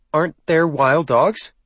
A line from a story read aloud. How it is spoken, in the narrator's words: Anna asked, tightly